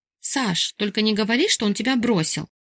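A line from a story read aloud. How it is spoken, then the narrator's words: Gasping, tongue-clicking grumble. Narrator (Russian): Охнула я и, прицикнув языком, проворчала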